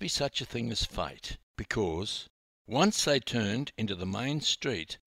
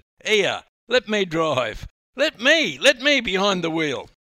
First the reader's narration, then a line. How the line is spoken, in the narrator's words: Stocksy shouted